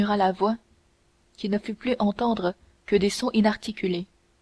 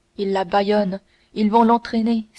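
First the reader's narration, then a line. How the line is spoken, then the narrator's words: Exclaiming. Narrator (French): s'écria D'Artagnan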